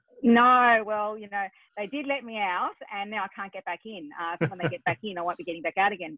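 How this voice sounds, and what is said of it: Australian accent. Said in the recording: “your accent isn't from the UK ... my funny accent obviously is Australian”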